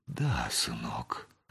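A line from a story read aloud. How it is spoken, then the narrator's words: Affectionate, fatherly. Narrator (Russian): ласково сказал отец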